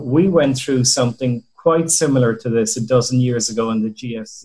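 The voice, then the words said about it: Irish accent. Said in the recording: “you can tell by my accent where we came from ... in Ireland”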